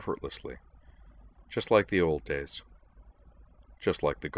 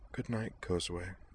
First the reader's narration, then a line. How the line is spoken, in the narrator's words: he whispered